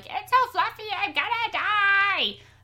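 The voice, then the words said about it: Imitates little girl cartoon character. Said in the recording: “was my Agnes impression.”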